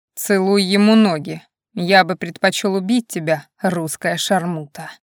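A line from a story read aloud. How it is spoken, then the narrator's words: Muttered through teeth. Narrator (Russian): Валид полный злобы и отвращения процедил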